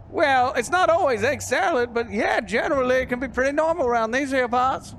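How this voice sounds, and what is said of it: Snowman character with an accent. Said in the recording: “How did you get that accent?”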